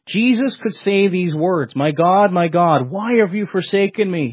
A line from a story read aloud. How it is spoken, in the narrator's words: He cried out those words in the Aramaic